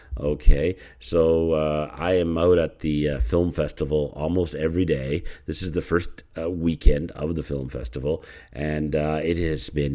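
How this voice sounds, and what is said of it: Tired, exhausted-sounding voice. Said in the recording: “you can maybe hear in my voice, I'm exhausted”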